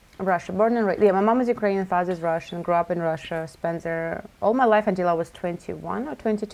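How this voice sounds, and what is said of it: Slight Russian accent. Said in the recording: “I could hear a little accent there. So Russia.”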